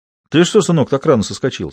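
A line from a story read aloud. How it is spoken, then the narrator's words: Plain. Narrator (Russian): спросил Роман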